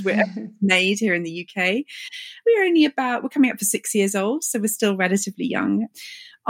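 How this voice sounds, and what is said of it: British accent. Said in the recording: “As you can tell by my accent, we're a British skincare brand.”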